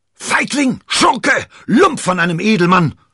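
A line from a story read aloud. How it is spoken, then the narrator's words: Shouting. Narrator (German): schrie D'Artagnan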